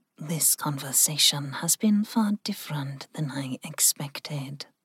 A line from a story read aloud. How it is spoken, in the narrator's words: Ling said softly